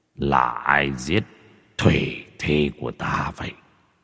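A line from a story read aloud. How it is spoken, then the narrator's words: Muttering. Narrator (Vietnamese): giọng lẩm bẩm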